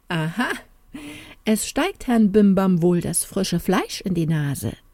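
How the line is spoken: Loud laughing call. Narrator (German): lachte der Junker aber laut auf und rief

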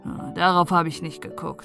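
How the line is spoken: Dry. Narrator (German): sagte Hannes trocken

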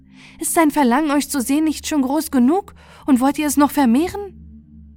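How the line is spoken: Called out. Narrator (German): rief Aprikotine

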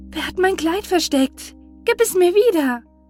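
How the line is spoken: Called out. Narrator (German): Sie rief

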